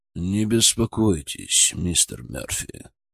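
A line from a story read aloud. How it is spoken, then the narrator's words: Through gritted teeth. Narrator (Russian): процедил Колин Смит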